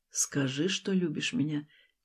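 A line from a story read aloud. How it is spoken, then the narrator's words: Quiet, commanding voice. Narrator (Russian): тихо и властно говорит Стас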